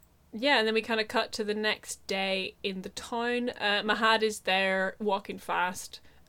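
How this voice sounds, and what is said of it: Usual voice. Nothing is said of it.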